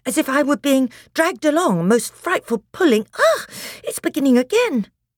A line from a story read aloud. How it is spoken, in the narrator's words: said Edmund in a breathless voice